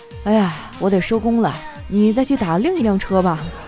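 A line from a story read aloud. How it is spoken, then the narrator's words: Resigned sigh. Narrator (Chinese): 这司机无奈的叹了口气，说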